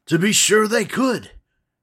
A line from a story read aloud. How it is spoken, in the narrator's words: cried the Scarecrow